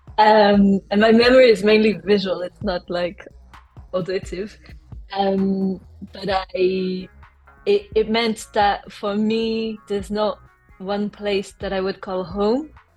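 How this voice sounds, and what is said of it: French accent in English. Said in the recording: “my mother tongue is French. ... I guess you can tell from the accent, which I can't get rid of.”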